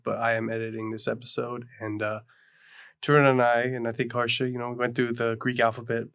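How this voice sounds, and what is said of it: Congested head-cold voice. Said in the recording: “If you can't tell, I have a head cold”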